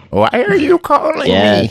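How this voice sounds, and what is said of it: Confused old lady voice. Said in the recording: “said hello like an old lady who doesn't understand why you're calling her ... That's a really good Brooke impression.”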